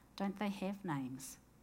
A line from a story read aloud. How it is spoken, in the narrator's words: blows the smoke out gently and says